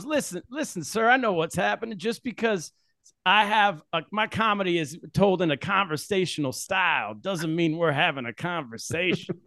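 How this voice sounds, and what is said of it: Soulful preacher-like comedian impression. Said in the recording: “he has this like preacher almost like cadence ... He's got like a real like swinging soulful sort of like vibe to him. ... That's a pretty good impression. Like that sounds like him.”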